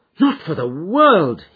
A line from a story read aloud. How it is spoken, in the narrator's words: he cried, with a gesture of horror